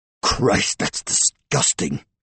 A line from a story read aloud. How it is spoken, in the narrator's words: rasped